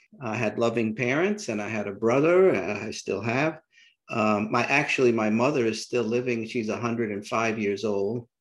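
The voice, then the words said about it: New York City accent. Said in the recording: “I still have my New York City accent, apparently”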